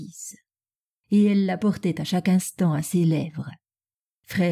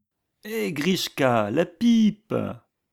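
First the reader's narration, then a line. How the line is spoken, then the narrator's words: Hoarse exclamation. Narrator (French): s'écria Denisov d'une voix enrouée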